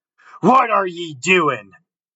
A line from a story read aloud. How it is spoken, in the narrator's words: cried Manfred, wrathfully